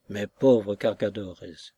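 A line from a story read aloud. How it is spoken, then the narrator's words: Murmuring. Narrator (French): murmura Nostromo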